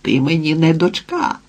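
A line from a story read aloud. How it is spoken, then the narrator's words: Exclaiming. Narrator (Ukrainian): вигукнув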